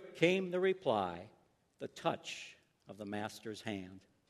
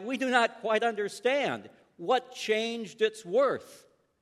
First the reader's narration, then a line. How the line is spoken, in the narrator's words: some of them cried